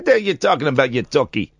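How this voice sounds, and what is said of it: Put-on New York accent. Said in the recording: “My American accent, my New York accent.”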